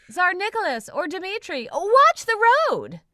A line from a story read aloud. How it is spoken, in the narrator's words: Tommy screams